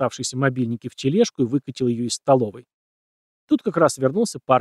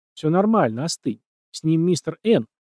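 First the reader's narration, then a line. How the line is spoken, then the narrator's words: Plain. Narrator (Russian): ответил тот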